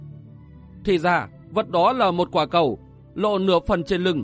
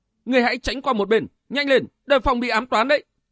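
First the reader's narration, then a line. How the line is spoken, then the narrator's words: Woman shouting. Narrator (Vietnamese): Cửu Độc nương tử hét lên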